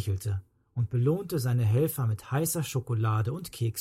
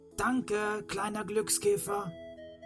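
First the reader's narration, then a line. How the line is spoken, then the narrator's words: Called out. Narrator (German): rief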